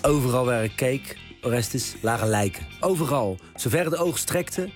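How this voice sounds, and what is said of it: Exaggerated Rotterdam accent, bit of Hague. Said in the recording (Dutch): “vet Rotterdamse accent ... dat klonk ongeveer zo ... ik overdrijf het nu een beetje. En er komt een tandje Haags bij”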